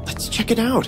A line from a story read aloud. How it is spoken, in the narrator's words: I whispered to Zach